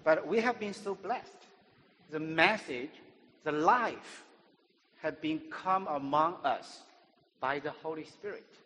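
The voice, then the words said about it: Non-native English accent. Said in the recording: “helping me with my grammar, English, and pronunciation ... better used to my accent”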